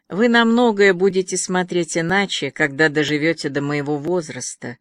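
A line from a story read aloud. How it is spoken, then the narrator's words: Conciliatory tone. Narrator (Russian): примирительным тоном ответила Джанет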